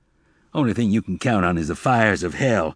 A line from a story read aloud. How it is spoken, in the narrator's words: Zek shot back harshly